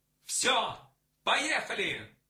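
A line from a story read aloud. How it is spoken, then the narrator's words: Immediate shout. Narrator (Russian): сразу закричал Максим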